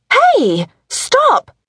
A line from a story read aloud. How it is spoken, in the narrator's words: Olivia cried